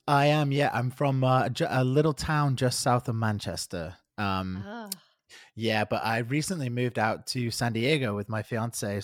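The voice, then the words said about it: British accent. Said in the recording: “You have a lovely accent. I'm assuming you're from the UK somewhere.”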